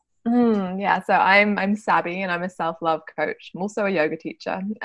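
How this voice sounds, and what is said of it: Speaks with a pleasant foreign accent. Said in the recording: “I could listen to you talk all day because of your amazing accent.”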